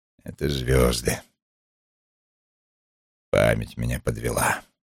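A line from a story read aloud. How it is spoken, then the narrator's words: Grumbling. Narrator (Russian): И он проворчал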